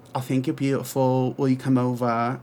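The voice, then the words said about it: Imitates another person's accent. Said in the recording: “I can't do Tom's accent, but that's my best attempt.”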